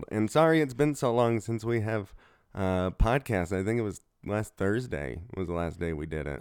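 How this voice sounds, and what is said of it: Rough, sick-sounding voice. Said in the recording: “I am under the weather, so if my voice sounds like shit ... I've come down with a cold.”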